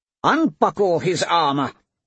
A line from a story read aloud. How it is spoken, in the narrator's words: Pedera shouted